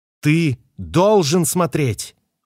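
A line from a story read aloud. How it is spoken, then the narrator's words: Shouted. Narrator (Russian): выкрикнула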